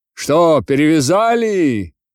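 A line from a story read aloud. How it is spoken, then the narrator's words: Group shouting from below. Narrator (Russian): кричали им снизу запорожцы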